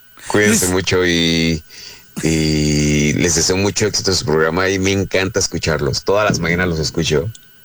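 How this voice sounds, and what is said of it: Smooth radio announcer voice. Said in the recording (Spanish): “tiene voz de locutor ... Tienes voz más chida que nosotros”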